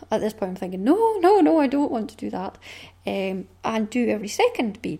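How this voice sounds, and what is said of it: Caithness Scottish accent. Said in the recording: “my mum is not from Caithness. She is from Northumberland... I was born and brought up here. So I have a different accent to my mum”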